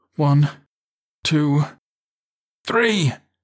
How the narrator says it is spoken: he cried

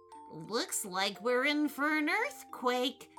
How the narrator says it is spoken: he said in a bubbling sort of voice

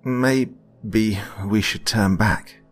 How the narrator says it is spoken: he said nervously

